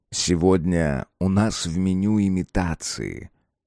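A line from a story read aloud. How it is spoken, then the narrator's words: Calm, slightly solemn. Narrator (Russian): спокойно и чуть торжественно сказал хозяин ресторана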